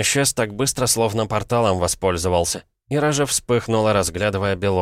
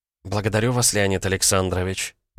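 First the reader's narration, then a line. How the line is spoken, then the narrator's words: Very quiet mumble. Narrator (Russian): очень тихо пробормотала Князева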